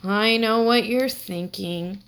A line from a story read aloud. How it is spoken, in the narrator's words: said Michael, groaning